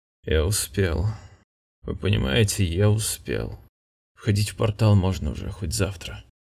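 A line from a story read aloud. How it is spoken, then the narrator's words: Dazed mutter on waking. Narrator (Russian): бормотал пришедший в сознание Саккар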